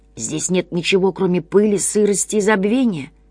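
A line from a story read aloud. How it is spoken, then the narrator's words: Indistinct creature mumble. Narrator (Russian): невнятно пробормотало существо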